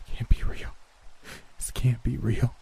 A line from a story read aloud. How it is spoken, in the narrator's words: whimpered